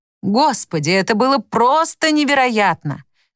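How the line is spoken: Shouted. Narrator (Russian): крикнул он

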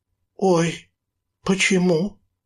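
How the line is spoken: Frightened cry. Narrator (Russian): испуганно вскрикнула она

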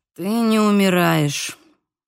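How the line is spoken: Strained, forced words. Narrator (Russian): выдавил из себя Бейл

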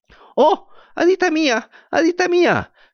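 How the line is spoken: Shrill puppet shrieking. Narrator (Spanish): comenzó a chillar la marioneta

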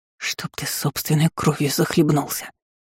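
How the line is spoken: Angry hiss. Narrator (Russian): Прошипела я со злостью

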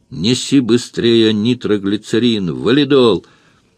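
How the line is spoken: Mother wailing. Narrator (Russian): Заголосила мать

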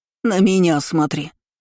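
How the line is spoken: Barking shout. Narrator (Russian): рявкнула тетка

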